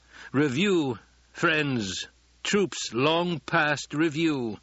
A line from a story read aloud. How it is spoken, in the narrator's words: the Duke intoned